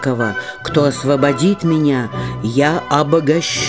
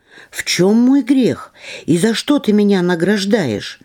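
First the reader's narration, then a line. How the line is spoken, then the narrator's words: Fisherman's exclamation. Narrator (Russian): И рыбак воскликнул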